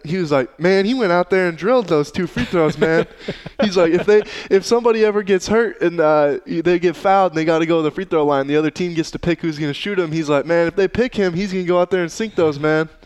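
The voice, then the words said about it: Imitates another person's voice. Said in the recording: “pretty good Steve impression ... I don't have the Southern draw with it, though”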